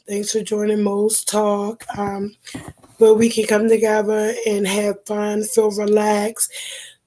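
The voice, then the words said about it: Very hoarse voice. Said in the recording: “I'm like really extra hoarse. I've been a little under the weather”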